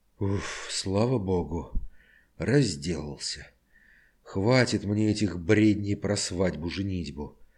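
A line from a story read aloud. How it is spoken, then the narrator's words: Relieved sigh. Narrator (Russian): Облегченно вздохнул он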